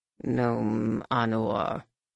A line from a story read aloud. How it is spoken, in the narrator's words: the villip growled, unable to actually convey the profound, bone-shivering bass of Shimra's voice, but suggesting it well enough